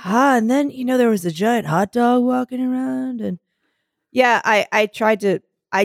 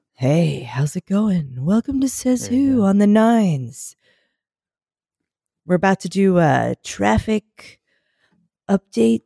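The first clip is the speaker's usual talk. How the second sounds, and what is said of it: Radio announcer voice. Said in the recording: “you sound like you got a radio voice.”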